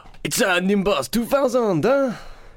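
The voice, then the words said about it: Imitates another person's voice. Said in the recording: “do an impression ... That's spot on. I can only imagine that's exactly what he sounds like.”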